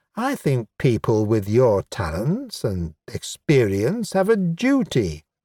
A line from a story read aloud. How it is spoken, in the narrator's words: she added in her special wheedling tone